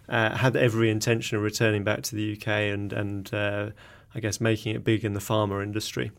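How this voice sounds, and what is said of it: English accent. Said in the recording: “you probably tell by my accent, I'm English originally.”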